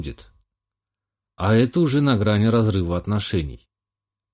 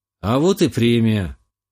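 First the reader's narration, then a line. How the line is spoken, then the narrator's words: Snort. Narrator (Russian): хмыкнул я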